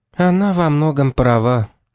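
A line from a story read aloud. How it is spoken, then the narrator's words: Sigh. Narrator (Russian): вздохнула Шарлотта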